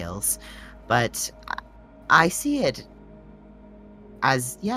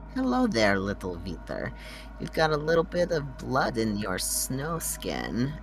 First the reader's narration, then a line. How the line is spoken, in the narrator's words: chuckles